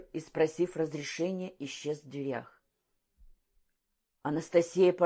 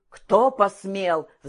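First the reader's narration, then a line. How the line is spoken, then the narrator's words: Roar. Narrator (Russian): взревел Калмыков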